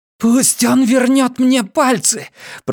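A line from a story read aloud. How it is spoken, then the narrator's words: Hoarse croak. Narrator (Russian): прохрипела Маля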